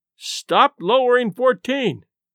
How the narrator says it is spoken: we shouted up

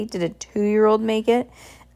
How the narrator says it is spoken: She asked in a snooty voice

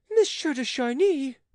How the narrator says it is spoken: The queen, in her excitement, cried

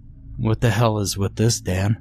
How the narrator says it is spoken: asked, his voice quivering slightly

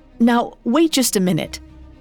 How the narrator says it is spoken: Bill stammered, suddenly feeling very irritated

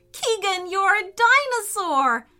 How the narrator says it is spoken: cried

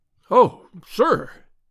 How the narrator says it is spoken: he cried

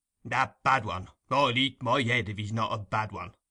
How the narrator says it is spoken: growled Mr

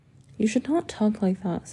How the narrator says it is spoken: said he

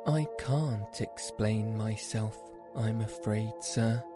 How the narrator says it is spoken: said Alice

